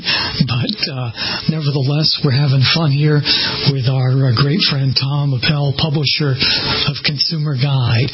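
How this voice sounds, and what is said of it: Hoarse, strained voice. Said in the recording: “I have a little bit of laryngitis that I'm battling, which is not a good thing for a radio person”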